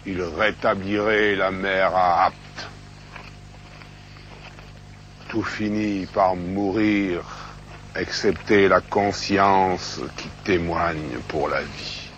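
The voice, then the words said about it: Gravel-voiced, powerful southern French accent. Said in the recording (French): “son accent rocailleux, cette puissance”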